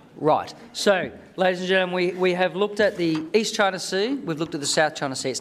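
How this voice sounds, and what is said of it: Australian accent. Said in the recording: “as you can tell from my accent, I'm an Australian”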